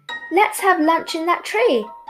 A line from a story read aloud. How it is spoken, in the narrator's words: cried Snappy